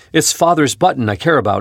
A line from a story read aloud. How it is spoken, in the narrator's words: exclaimed Teddy, proudly